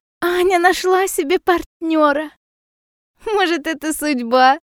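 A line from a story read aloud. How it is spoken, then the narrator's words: Giggling. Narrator (Russian): хихикает Лиза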